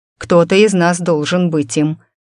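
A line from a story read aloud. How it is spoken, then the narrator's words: Snorting. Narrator (Russian): фыркнул принц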